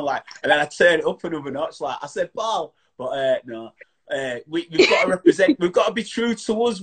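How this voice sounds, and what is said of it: Strong Yorkshire accent. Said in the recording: “I love your Yorkshire accent as well... Your Yorkshire is strong... I have the strongest Yorkshire accent ever”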